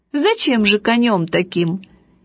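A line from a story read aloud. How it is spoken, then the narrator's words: Cheerful, laughing father. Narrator (Russian): отец очень веселый сказал, смеясь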